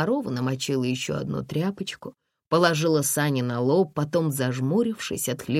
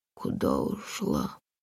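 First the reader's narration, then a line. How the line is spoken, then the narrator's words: Breathed out. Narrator (Russian): выдохнул Сань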